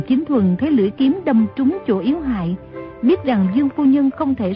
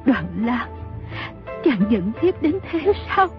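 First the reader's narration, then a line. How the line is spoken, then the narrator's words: Trembling question. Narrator (Vietnamese): Dương phu nhân run rẩy hỏi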